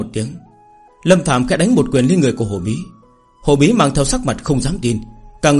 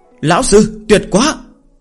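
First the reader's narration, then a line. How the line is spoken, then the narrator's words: Excited group shouting. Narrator (Vietnamese): Đám người Chu Du hưng phấn hét lên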